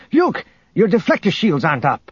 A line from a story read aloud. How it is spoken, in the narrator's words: called out